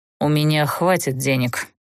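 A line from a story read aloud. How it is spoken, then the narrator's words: Condescending amused snort. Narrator (Russian): снисходительно хмыкнул позабавленный этой болтовнёй Даггард, радуясь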